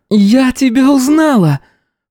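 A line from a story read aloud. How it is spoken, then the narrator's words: Sharp cry in English. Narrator (Russian): Вскрикнула одна из них по-английски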